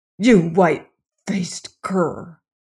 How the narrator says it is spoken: he snarled through clenched teeth

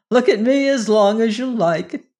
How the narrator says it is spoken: said with a laugh

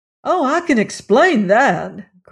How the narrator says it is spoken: cried Reed

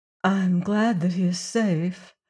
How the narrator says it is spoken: said Juana faintly

